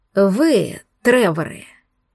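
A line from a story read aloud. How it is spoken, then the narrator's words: Displeased, through gritted teeth. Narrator (Russian): процедил сквозь зубы недовольно родственник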